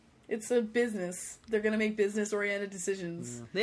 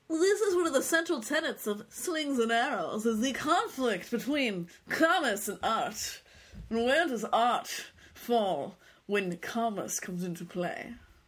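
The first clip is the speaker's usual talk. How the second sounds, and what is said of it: Put-on accent. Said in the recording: “That was a good accent, too. ... I don't know where it was from”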